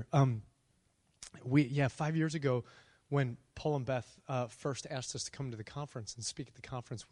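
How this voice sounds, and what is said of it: Hoarse, worn-out voice. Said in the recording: “My voice is a little bit shot”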